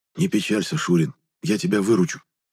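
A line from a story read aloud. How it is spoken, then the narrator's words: Whispered. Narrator (Russian): прошептал Гайнар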